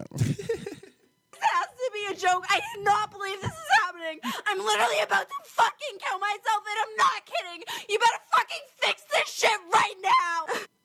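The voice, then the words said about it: Very upset, distressed voice. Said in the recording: “She sounds very upset.”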